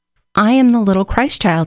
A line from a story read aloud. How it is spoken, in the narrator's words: he said